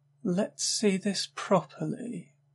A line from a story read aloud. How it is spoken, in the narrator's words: she said in a coquettish tone, voice fully awake